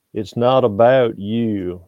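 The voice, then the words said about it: Poor Dr. Phil McGraw impression. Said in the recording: “That's my worst Dr. Phil McGraw impersonation ever.”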